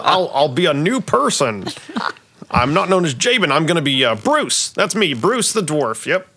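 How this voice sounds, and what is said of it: Put-on working man accent. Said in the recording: “I get to practice an accent I've been working on. It's a working man accent.”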